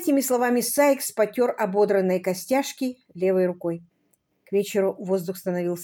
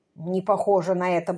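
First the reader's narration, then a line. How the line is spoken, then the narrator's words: Grumble. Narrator (Russian): буркнул Сайкс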